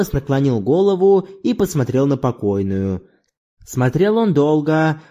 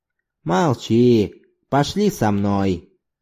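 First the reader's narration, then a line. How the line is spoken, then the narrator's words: Gentle, affectionate. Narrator (Russian): Зорбас ласково сказал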